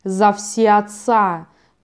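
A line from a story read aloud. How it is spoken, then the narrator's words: Thunderous roar. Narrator (Russian): прогремел Рус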